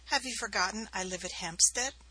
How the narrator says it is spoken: she laughed

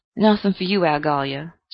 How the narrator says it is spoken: said Saul gloomily

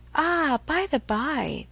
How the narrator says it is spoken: with a sudden accession of gay thought, she cried

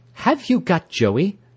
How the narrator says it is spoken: she cried sharply, as if I were a thief

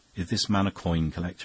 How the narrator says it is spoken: he asked

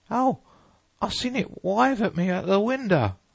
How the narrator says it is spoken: wailed the boy

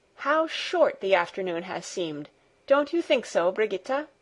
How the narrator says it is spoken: would exclaim

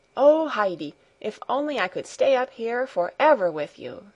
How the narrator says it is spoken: she exclaimed happily

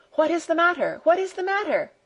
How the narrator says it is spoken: cried the frightened old woman

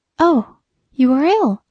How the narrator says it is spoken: she gasped

